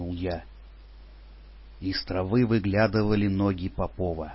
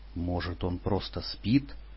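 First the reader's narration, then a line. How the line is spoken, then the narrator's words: Timid hopeful mumble. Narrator (Russian): с робкой надеждой пробормотал я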